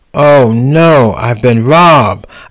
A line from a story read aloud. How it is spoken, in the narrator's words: exclaimed out loud